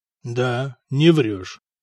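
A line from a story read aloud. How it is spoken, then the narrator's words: Glum agreement. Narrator (Russian): уныло согласился Надир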